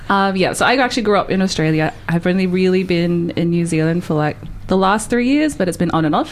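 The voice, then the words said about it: Australian accent. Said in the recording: “I'm actually from Australia ... if you couldn't tell by my accent.”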